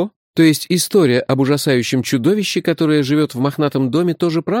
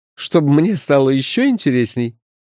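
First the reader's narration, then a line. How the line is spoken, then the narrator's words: Laughing. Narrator (Russian): рассмеялся он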